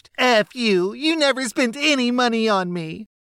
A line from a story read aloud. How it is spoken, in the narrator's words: demanding some expensive item, when told no, screeched